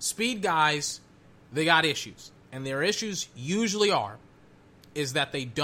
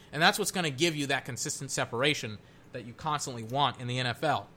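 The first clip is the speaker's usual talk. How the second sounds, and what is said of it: Talking very fast. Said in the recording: “I've been running my mouth stupidly fast ... Starting to get lightheaded. I'm talking so fast. Let me calm it down”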